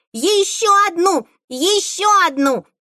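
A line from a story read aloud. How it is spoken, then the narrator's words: Excited yell. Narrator (Russian): завопила она, подскакивая с удвоенной энергией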